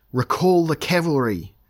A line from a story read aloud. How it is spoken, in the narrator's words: Elric yelled